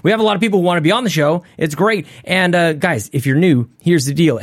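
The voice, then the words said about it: Unwell, rough-sounding voice. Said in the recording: “I'm pushing through something right now. You might be able to hear it in my voice. I sound and feel like crap”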